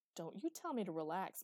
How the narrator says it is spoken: muttered Eli, feeling sulky and abused

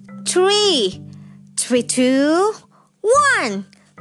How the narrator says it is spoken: cried Barn Owl

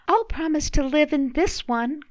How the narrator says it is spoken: cried little Mrs

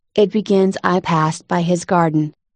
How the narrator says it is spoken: Alice ... she went on in a trembling voice

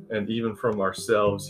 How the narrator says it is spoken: he said under his breath

